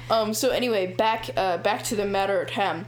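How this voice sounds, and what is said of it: Silly made-up put-on accent. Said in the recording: “I don't know what accent I'm doing, but it's a new one. It's a fun one... It's kind of silly.”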